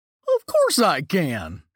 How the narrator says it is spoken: he answered excitedly

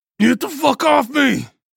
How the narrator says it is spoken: I roared

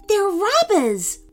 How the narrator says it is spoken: Rodney yelped from the corner of the lot

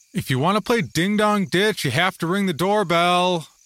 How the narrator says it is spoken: I called out, careful to keep from bothering others in their quiet homes

